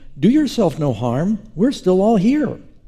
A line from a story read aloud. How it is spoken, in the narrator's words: Paul called out with a loud voice, saying